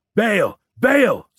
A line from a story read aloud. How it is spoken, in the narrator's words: someone shouted